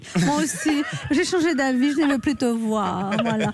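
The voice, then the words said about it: Sensual accented voice, Monica Bellucci-like. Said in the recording (French): “avec l'accent ... Avec une voix comme ça, tout passe. ... je vais parler comme vous. ... C'est très Monica Bellucci. ... C'est très sensuel”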